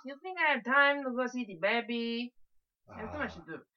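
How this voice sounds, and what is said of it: Bad put-on Italian accent. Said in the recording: “That was a terrible Italian accent.”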